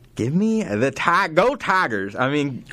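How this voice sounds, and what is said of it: Bad imitation of another person's voice. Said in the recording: “my bad Brian Kelly impression.”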